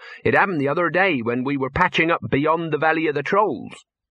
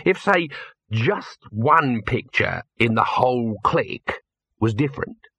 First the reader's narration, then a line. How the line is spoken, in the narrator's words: he said slowly